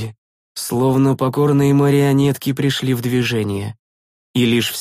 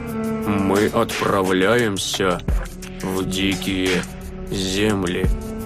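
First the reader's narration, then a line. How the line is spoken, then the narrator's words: Rustling old voice. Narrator (Russian): шелестящим голосом отозвался старик Флатис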